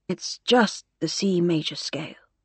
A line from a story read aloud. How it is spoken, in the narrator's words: murmured Arthur